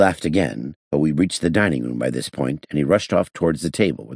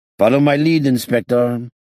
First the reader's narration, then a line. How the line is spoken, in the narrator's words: he shouted as he ran